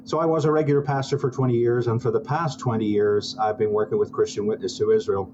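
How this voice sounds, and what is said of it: Foreign accent from across the pond. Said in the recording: “As you can tell from my accent, at least whenever I get passionate, I'm not from these parts. I'm from across the pond.”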